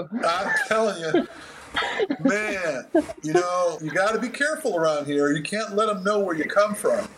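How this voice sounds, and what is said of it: Tennessee Southern US accent. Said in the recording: “Your accent, Tennessee accent's coming through.”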